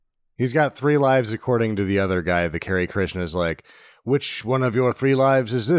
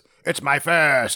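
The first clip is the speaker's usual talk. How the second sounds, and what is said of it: Imitates a film character's voice. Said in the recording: “That was a pretty good impression.”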